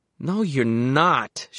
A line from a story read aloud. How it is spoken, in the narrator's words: she slurred